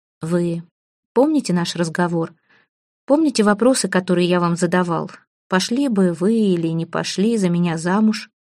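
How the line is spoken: Quiet question. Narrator (Russian): спрашивал тихим голосом Сухумов

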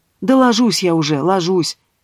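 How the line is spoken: Weary sigh. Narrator (Russian): Устало вздохнула в балаболку Ива

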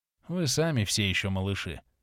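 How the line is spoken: Sighing. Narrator (Russian): вздохнул папаша

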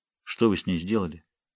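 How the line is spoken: Quiet unthreatening question. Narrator (Russian): негромко и без всякой угрозы спросил Джонни

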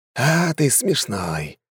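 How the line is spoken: Sighing. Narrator (Russian): вздохнул Чингисхан

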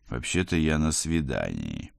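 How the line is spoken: Irritated growl. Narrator (Russian): прорычал я, поскольку капралу явно было не с кем поболтать

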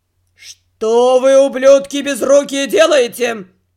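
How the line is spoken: Drunken growl. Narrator (Russian): зарычал все еще пьяным голосом главный садовник

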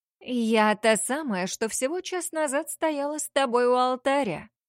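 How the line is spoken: Sing-song, venomously sweet drawl. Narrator (Russian): Пропела медовым ядовито-сладким голоском, растягивая слова

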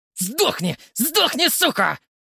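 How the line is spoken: Furious screaming. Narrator (Russian): вопил Прохоров со злости

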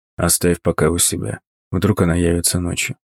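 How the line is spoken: Quiet. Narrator (Russian): тихо произнес

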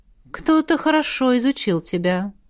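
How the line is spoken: Sigh. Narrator (Russian): вздохнула ректор

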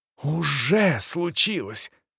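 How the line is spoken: Aunt whispering. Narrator (Russian): зашептала тетушка

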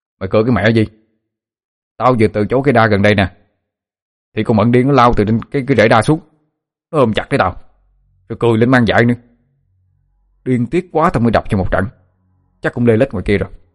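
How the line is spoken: Angry near-shout. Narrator (Vietnamese): Thắng Sẹo thấy như vậy thì càng bực, nó nói như quát lên

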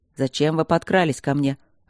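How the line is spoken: Irritated question. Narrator (Russian): раздраженно поинтересовался Кембридж

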